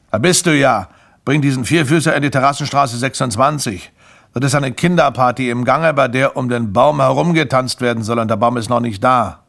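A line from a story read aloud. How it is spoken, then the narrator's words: Call. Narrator (German): rief er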